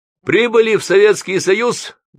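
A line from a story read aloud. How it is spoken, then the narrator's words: Loud, as to deaf person. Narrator (Russian): громко, как глухого спросил сосед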